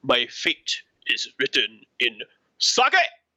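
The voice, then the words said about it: Imitating Hanzo's character voice. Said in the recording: “they have to be done, as you know, in the voice of the character ... favorite voice lines for Hanzo ... I'm going to do a combo voice line”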